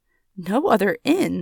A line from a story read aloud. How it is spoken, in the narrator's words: exclaimed Harris